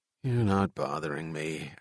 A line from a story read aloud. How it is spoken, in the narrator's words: Al said as he gloomily watched the three people depart